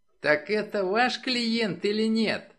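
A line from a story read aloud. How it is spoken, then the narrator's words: Squeak. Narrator (Russian): пропищал Джей Керр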